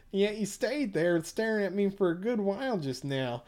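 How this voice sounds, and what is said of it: High nasal Midwestern twang. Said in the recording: “a high, nasally Midwestern twang ... now I'm in a twang”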